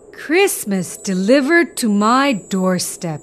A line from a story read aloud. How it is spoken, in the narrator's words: exclaimed Santa